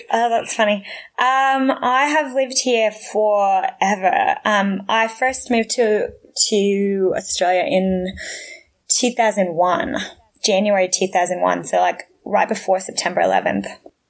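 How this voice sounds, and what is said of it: Australian-sounding accent, not New York. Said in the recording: “I love your accent. How long have you been in Australia? ... That is definitely not a New York accent.”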